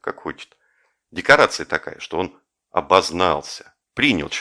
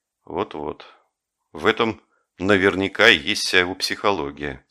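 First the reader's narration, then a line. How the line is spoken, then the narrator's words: Gloomy. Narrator (Russian): сказал я мрачно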